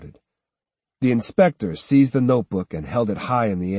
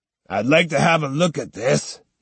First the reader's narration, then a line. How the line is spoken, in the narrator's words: he barked